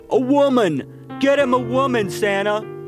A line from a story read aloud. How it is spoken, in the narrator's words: very loud and irritating, constantly laughing